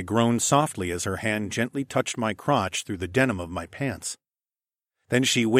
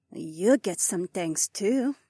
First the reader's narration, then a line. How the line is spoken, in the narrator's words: Haywan purred